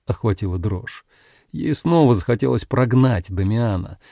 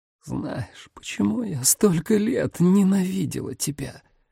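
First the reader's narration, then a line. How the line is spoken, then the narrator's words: Hoarse rasp. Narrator (Russian): прохрипела Рос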